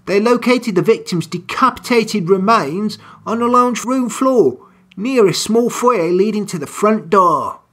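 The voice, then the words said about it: Reading aloud in a wandering put-on accent. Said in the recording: “Don't know where this accent's going.”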